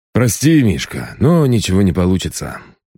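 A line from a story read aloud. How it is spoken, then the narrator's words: Sighing. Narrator (Russian): брат вздохнул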